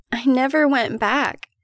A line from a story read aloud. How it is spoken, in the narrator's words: Mary cries in desperation